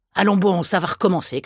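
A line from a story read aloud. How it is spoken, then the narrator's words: Shouted. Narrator (French): cria Fauchery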